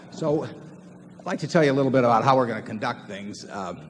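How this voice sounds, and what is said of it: Hoarse, strained, fading voice. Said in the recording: “I was losing my voice almost entirely.”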